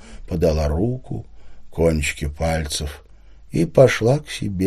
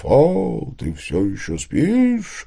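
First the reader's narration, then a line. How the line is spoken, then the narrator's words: Thunderous shout. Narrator (Russian): крикнула она громовым голосом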